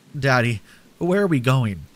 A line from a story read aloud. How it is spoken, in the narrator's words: I tearfully asked